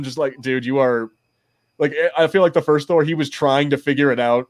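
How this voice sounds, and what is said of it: Usual voice. Nothing is said of it.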